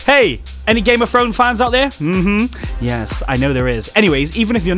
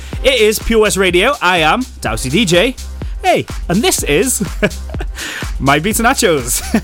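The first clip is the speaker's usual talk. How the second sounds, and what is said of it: Polished professional radio-presenter voice. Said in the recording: “I always put on that professional voice, don't I?”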